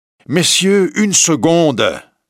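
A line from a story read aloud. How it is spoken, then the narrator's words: Plain. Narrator (French): dit Michel Ardan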